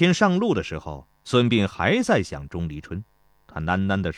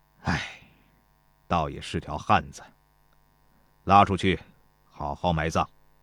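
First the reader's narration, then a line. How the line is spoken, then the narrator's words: Sighing. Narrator (Chinese): 田忌叹道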